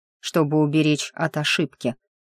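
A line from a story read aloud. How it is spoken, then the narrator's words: Plain. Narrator (Russian): ответил он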